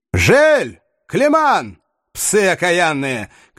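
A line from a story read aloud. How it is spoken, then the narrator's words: Furious shout. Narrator (Russian): крикнул разъяренный норман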